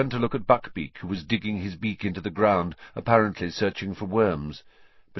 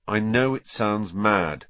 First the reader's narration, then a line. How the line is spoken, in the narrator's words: said Harry flatly